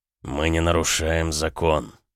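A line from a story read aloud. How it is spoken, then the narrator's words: Muffled, dull reply. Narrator (Russian): ответил глухо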